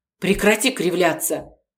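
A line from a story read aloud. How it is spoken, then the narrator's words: Irritated interruption. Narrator (Russian): раздраженно перебила его Полина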